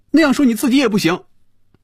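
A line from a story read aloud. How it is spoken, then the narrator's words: Loud. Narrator (Chinese): 菲比大声说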